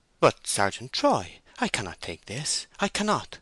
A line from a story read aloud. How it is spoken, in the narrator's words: she exclaimed with round-eyed wonder